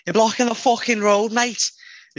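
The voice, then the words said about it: Put-on Scouse accent. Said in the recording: “that was definitely Scouse.”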